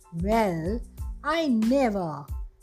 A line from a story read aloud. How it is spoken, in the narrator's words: says she again